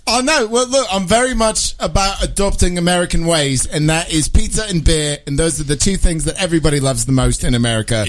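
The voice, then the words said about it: Put-on British accent. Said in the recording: “I'm Brit ... my accent ... Now he just turned into Austin Powers”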